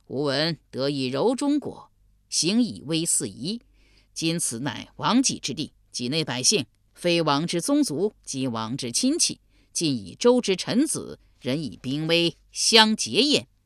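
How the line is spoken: Laughing. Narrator (Chinese): 仓葛在城上笑曰

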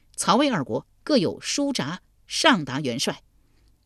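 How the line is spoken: Soldier reporting. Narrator (Chinese): 帐外小卒报道

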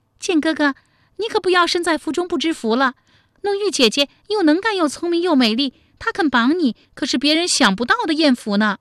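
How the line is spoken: Laughing. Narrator (Chinese): 巨霜笑道

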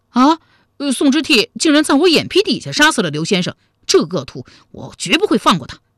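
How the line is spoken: Shouting. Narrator (Chinese): 王之涣嚷道

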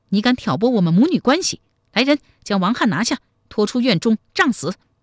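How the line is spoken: Furious. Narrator (Chinese): 太平公主大怒说

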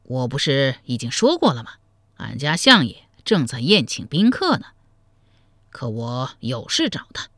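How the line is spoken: Cold laugh. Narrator (Chinese): 冷声笑道

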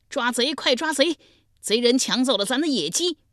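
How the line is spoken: Shouting. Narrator (Chinese): 脚步声惊动了重耳，大声喊道

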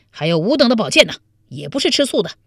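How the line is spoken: Group shouting loudly. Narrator (Chinese): 王彦生、李楚云、潘美、田崇进等大声叫道

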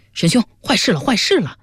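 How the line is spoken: Shouting. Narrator (Chinese): 角生光嚷道

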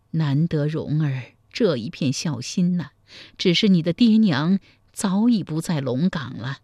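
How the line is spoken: Long sigh. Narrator (Chinese): 柴姨娘长叹一声说

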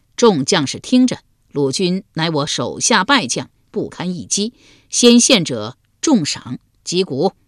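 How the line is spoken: Loud declaration. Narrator (Chinese): 高声说道

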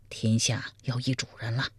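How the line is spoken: Quiet. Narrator (Chinese): 小声说

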